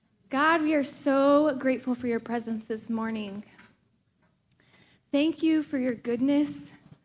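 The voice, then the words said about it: Slightly out of breath. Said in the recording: “I'm a little out of breath. Okay, I just ran upstairs.”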